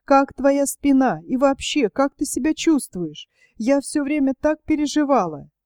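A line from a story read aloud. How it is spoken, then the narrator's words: Tearful question. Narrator (Russian): Рита сквозь слезы спросила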